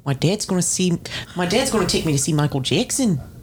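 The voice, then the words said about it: Put-on New Zealand accent. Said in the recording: “pretty good at a New Zealand accent ... That's pretty good.”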